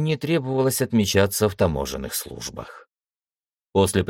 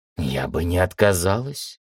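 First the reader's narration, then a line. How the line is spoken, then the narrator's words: Dreamy sigh. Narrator (Russian): мечтательно вздохнула Кайла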